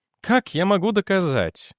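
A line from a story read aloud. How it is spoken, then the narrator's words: Weary question. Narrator (Russian): устало спросил Дженнек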